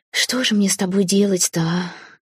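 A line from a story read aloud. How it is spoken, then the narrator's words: Quiet question. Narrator (Russian): тихо спросила я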